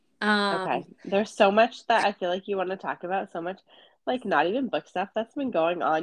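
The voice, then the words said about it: Stuffy, congested voice. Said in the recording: “You sound a little stuffy. ... I am. I'm a little sick. ... I just sound sick.”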